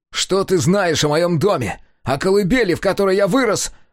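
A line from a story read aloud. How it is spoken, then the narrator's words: Shouting. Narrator (Russian): закричал Сега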